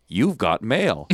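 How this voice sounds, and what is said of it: Imitates the AOL announcer voice. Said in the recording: “I do a really good impression. ... That's the AOL guy”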